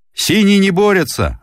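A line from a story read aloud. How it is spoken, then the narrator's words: Crowd yelling. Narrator (Russian): орали зрители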